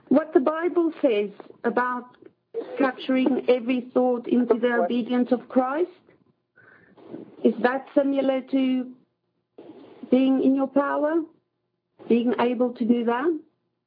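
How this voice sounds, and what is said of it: Noticeable accent, somewhat hard to follow. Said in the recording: “Your accent throws me off a bit.”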